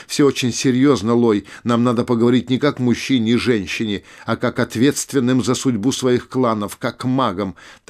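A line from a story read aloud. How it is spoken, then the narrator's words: Frightened cry. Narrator (Russian): маг испуганно вскричал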